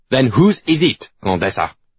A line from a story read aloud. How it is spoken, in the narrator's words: Bourbon barks